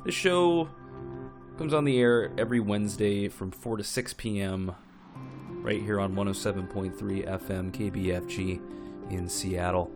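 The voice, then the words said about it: Slightly hoarse voice. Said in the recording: “excuse my voice if I sound a little hoarse. I'm coming off of having a kind of a nasty cold, and I'm not quite 100% yet”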